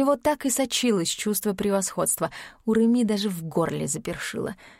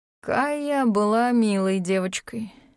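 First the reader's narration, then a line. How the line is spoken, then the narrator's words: Disappointed drawl. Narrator (Russian): протянул он разочарованно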